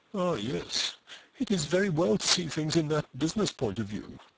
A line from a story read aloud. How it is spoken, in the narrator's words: murmured Eustacia with a smothered fire of feeling